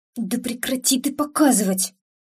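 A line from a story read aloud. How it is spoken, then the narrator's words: Hissed. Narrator (Russian): Зашипела я на зеркало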